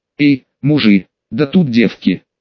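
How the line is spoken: Gleeful whisper. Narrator (Russian): обрадованно прошептал он

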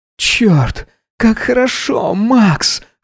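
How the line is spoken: Hoarse moaning. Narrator (Russian): хрипло стонал Гедеон

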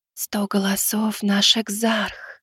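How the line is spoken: Close whisper in ear. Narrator (Russian): прошептала мне Залия, почти касаясь губами уха

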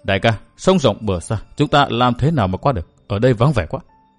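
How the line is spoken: Soft question. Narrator (Vietnamese): Lục Y Lang Tử khẽ hỏi

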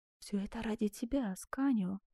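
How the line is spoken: Whisper. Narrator (Russian): прошептала

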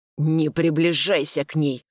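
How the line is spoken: Hoarse through teeth. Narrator (Russian): просипел сквозь зубы

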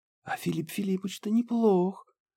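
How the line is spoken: Admiring whisper. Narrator (Russian): с ноткой восхищения прошептала Банши

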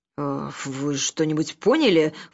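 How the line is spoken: Snorting aside. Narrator (Russian): фыркнула Роза в сторону Анны

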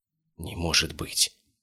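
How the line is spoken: Whispered. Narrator (Russian): прошептал инспектор

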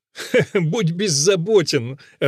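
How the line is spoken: Loud laughter. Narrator (Russian): расхохотался Грибоедов

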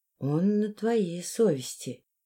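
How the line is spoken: Quiet, female stranger. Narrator (Russian): тихо сказала незнакомка

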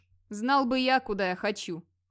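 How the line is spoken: Puzzled grumble. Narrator (Russian): проворчал озадаченный Вигмар

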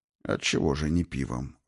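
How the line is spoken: Undertone remark. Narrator (Russian): вполголоса заметил отец капитулярий

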